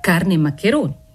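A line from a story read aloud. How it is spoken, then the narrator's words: Laughing retort. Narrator (Italian): ribatté ridendo il garzone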